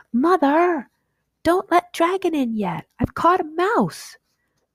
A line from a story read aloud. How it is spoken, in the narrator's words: A voice shouted